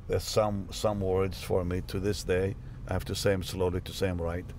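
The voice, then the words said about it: Foreign-accented English. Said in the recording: “I still have an accent”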